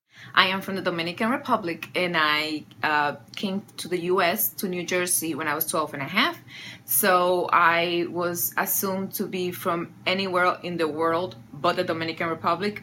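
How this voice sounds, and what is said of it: Mixed Dominican and New Jersey accent. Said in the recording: “I think her accent is a bit of a mix. It's like she came from the DR and then she grew up in New Jersey, so she's got a little bit of both ... It's a Jersey accent ... my Hispanic accent”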